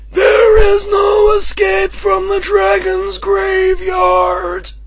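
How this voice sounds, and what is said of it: Dragon villain character voice. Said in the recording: “my Tiamat impression, which I've done a Tiamat one for ages”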